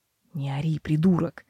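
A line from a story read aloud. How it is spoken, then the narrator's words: Amused mutter. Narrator (Russian): пробормотал Себастьян, на сей раз уже неподдельно веселясь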